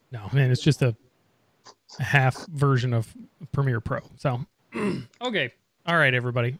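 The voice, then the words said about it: Hoarse, strained voice. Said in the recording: “Man, I'm getting like hoarse here.”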